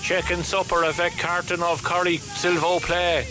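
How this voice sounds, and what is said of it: French phrases in Cork accent. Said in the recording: “learning French with a Cork accent”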